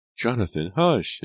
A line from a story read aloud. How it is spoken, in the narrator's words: his mother cried